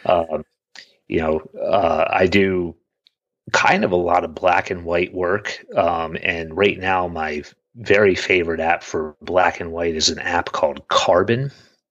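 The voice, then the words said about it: Scratchy, hoarse voice. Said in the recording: “my voice is uh, getting scratchy”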